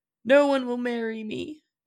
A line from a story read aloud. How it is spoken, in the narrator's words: El sobbed